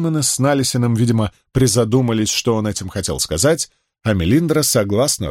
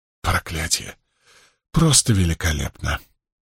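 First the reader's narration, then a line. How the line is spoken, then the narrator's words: Mutter. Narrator (Russian): пробормотал Мэтт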